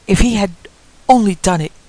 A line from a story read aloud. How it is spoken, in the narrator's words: she cried passionately